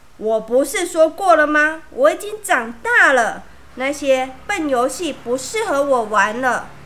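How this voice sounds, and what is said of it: Angry, scary voice. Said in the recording (Chinese): “用一种很生气、很可怕的声音说”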